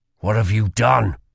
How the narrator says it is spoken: growled Kel

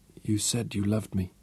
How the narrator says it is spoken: murmured at last, making it a question, seeking reassurance

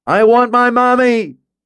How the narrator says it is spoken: He wailed, his whole body shaking, fell silent, and then yelled

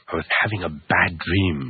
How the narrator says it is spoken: Arthur mumbled

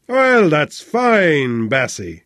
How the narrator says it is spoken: boomed genially

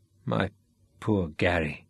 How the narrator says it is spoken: Sean said softly

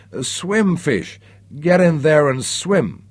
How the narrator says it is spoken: Samantha's anguished cries of

